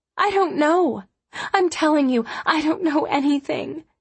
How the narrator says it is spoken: whimpered

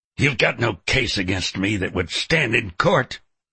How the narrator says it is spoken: Booker sneered

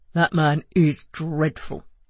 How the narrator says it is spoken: Joe grumbled

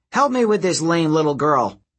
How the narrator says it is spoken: Doris yelled to one of her comrades

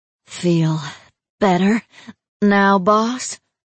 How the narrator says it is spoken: She gasped

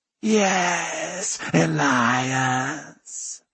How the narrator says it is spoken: the djinn purr

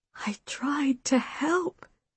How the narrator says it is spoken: Mother whispered

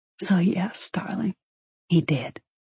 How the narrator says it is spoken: he whispered back

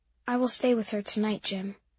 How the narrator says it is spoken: Mimi said in a quiet voice, and tears were just running, running down her face

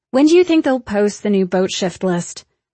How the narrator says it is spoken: Byatt says loudly

